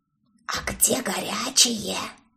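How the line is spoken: Displeased mutter. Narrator (Russian): Недовольно пробормотала Стафи

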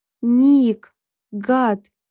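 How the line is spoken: Whimpering. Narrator (Russian): захныкала я

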